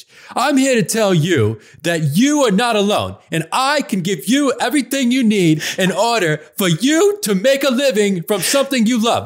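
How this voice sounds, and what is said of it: Imitates another person's voice. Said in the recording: “doing my Derek Halpern voice”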